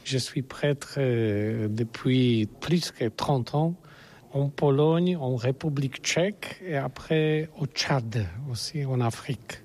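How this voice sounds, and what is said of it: Non-native speaker, good French accent. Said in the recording (French): “vous avez un très bon accent”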